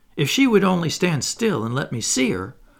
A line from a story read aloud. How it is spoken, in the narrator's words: cried